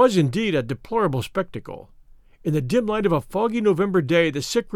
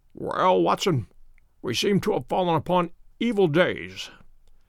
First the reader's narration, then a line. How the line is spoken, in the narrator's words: said he, in a feeble voice, but with something of his old carelessness of manner